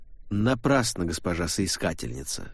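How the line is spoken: Cold. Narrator (Russian): холодно сказал Дассини

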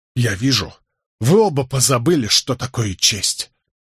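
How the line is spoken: Trembling with fury, through teeth. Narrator (Russian): дрожащим от ярости голосом процедил Николас

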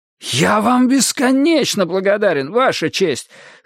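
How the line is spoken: Fervent exclamation. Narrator (Russian): с жаром воскликнул Бейкер

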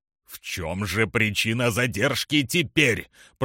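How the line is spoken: Booming voice. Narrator (Russian): прогремел Эл-Парк

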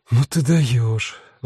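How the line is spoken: Sighing. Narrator (Russian): вздохнула Рут

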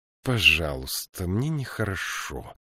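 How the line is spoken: Whisper. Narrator (Russian): прошептала она

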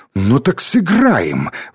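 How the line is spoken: Exclaiming woman. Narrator (Russian): воскликнула она

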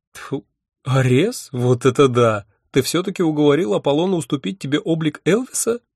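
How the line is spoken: Laughing loudly. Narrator (Russian): расхохоталась Афина

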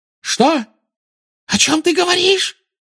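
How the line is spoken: Shrieking. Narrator (Russian): взвизгнула она

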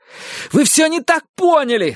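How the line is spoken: Desperate shout. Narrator (Russian): закричал он, заламывая руки

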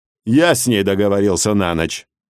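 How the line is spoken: Contemptuous snort. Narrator (Russian): Боб презрительно фыркнул

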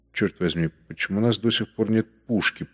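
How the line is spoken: Whisper. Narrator (Russian): прошептал Гольштейн

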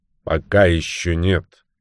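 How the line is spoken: Stern tone. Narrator (Russian): суровым тоном произнес Батл

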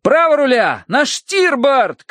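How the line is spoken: Shouting. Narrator (Russian): кричал Терренс

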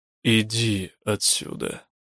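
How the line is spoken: Quiet, chilling. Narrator (Russian): сказал мстевой, по-прежнему тихо

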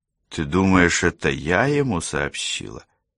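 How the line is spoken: Quiet question after a pause. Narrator (Russian): После паузы она тихо спросила

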